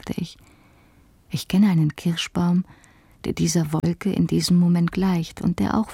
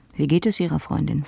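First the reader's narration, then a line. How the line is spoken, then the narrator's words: Plain question. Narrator (German): fragte er dann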